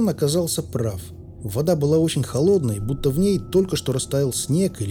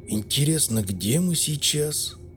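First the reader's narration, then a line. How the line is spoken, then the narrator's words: Muttered to no one. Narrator (Russian): Никому конкретно не обращаясь, пробормотал Соболь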